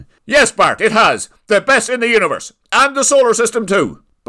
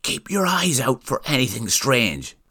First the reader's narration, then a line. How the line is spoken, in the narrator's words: whispered